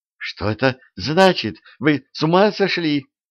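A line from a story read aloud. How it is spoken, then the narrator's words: Terrified trembling scream. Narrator (Russian): В ужасе закричала дрожащим голосом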